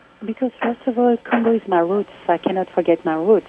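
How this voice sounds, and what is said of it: French accent. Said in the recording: “they will hear the French accent”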